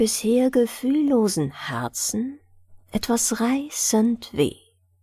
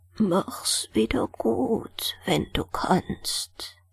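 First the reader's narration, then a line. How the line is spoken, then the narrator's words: Very quiet old woman. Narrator (German): sagte die Alte noch ganz leise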